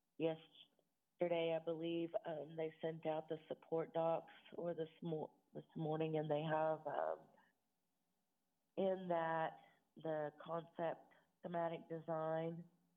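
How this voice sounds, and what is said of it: Unwell, strained voice. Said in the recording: “Sorry about my voice. I'm not feeling 100%.”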